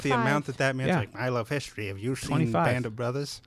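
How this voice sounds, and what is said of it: Imitates another person's voice. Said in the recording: “That's my Tom Hanks impression.”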